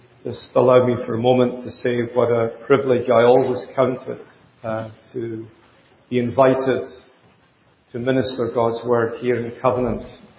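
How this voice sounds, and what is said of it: Scottish accent. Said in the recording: “It must be the accent. I'm told that a Scottish accent is worth in some places another $10,000 a year.”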